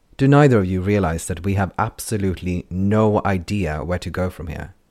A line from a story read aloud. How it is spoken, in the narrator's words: She snapped